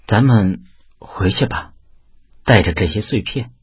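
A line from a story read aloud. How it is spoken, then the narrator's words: Dazed, after a pause. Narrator (Chinese): 文文怔怔的愣了一会儿后说道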